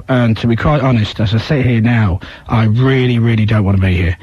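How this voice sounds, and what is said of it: Strained, deep, failing voice. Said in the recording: “my voice is going ... I've been talking so deep and so serious for the last couple of days ... my voice has been like this”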